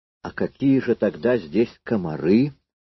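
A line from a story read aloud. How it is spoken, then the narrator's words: Gloomy. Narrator (Russian): мрачно произнес Кудряшов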